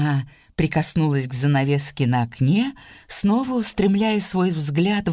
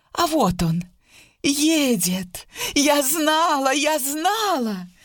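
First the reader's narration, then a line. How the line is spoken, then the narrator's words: Sudden cry. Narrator (Russian): Вдруг Сьюзан вскрикнула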